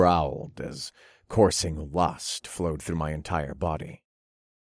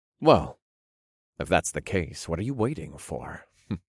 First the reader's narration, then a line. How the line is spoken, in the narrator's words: I chuckled